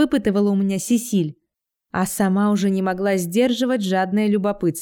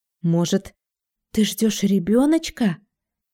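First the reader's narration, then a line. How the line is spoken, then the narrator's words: Whisper. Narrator (Russian): зашептала Сесиль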